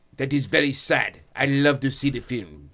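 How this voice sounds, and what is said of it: Terrible put-on French accent. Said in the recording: “That's a terrible French accent.”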